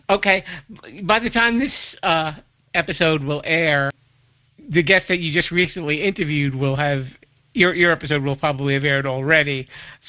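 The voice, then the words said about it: Speaks with a noticeable accent. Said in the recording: “You've got that great accent, though.”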